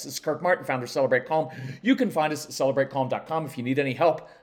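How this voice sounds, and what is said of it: Very fast speech. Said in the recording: “I'm talking really fast”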